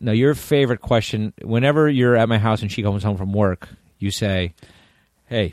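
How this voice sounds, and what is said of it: Usual voice. Nothing is said of it.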